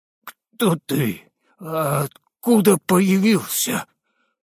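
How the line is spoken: Forced through clenched teeth. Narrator (Russian): сумел выдавить сквозь стиснутые зубы

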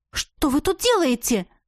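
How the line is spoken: Indignant despite fear. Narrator (Russian): Голос звучал возмущенно, несмотря на испуг

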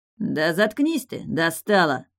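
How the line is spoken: Bark. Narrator (Russian): рявкнул он

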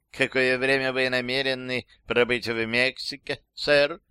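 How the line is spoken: Slight lisp. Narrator (Russian): сказала она чуть шепелява

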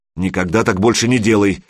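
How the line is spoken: Angry. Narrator (Russian): сердито проговорила Любка

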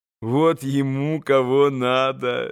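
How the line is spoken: Laughing. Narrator (Russian): засмеялась Грушенька

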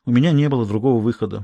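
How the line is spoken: Sighed. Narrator (Russian): вздохнул Хьюго

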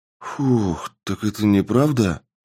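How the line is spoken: Relieved exhale. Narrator (Russian): выдохнул парень

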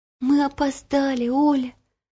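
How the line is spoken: Whispered. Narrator (Russian): прошептала Ело

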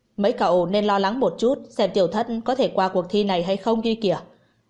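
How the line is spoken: Angry. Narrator (Vietnamese): Hạ Nhật Ninh tức giận

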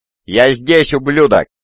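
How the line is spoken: Exhilarated shout. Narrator (Russian): закричал радуясь яркой радуге острых ощущений в своем теле

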